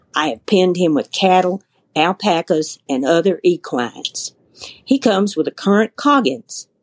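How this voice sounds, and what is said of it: Natural Southern US accent. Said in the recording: “Your accent was actually yeah. pretty darn good. ... she said she grew up in the South. You can tell when somebody's grown up there. That was kind of natural.”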